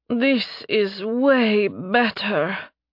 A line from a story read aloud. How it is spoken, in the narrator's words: Nerevia gasped out